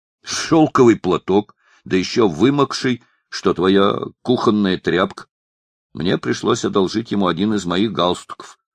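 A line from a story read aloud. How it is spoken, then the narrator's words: Plain. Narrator (Russian): ответил Триптельмус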